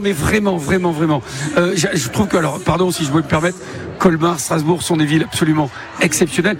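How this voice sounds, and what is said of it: Light Bordeaux French accent. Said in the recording (French): “un petit accent, ça vient d'où exactement? ... De Bordeaux”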